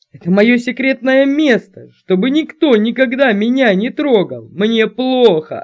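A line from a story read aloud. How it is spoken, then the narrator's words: Boss yelling after someone. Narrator (Russian): орал шеф уже вдогонку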